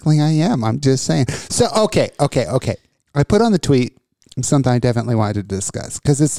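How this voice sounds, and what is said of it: Usual voice. Nothing is said of it.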